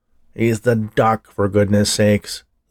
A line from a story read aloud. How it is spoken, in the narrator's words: he growled